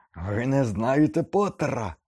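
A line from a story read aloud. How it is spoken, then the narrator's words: Shrieked. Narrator (Ukrainian): верещав Снейп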